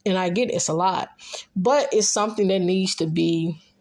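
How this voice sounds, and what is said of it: Thick Memphis accent. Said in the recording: “Sometimes my words just want to slur. That Memphis accent comes in thick, y'all.”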